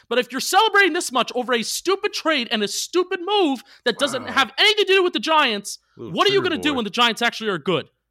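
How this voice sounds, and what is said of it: Yelling. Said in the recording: “sorry I'm yelling.”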